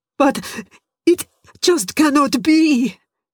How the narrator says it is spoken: stammered

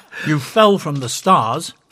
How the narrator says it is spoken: Thelar snapped

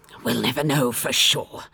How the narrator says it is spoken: the doctor muttered

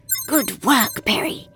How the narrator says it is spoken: breathed

